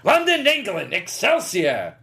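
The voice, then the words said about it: Stan Lee impression. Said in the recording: “if you want to do his voice ... that's a pretty good interpretation”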